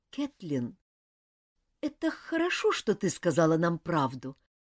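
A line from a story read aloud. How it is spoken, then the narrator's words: Forced out reluctantly. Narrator (Russian): наконец выдавила из себя Дженни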